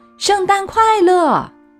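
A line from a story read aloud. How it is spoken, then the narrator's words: Loud cupped-hand call. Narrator (Chinese): 他把手拢在嘴边，大声说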